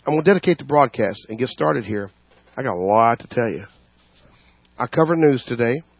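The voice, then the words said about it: Hoarse voice. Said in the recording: “I do apologize for my hoarseness here, but I'm fighting a little bit of a something or other”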